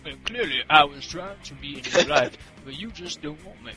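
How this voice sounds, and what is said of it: Put-on Black American voice. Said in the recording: “I have to do this in my black voice.”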